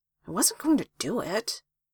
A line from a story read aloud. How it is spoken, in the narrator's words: He muttered